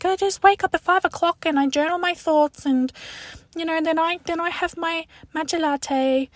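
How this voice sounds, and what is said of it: Put-on affected accent. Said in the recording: “I don't know where that accent came from”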